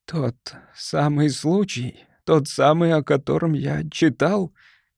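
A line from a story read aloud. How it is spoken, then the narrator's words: Groaning. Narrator (Russian): простонал мистер Эпплби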